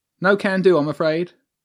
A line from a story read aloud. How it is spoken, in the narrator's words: said flatly